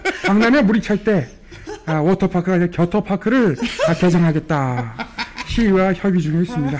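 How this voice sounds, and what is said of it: Polished impression of a politician. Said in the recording (Korean): “이제 점점 완성돼가네, 이거, 성대모사가. 처음에 선보일 땐 약간, ... 약간 이질감이 있었거든요. ... 지금은 착 붙네. ... 처음에는 조금 윤석열하고 섞이는 ... 느낌이 있었는데. ... 이 완벽하게 이제 독립을 했어요.”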